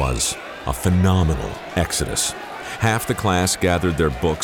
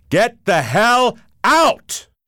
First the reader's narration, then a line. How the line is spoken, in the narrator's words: he bellowed